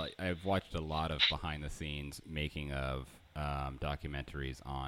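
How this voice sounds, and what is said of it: Usual voice. Nothing is said of it.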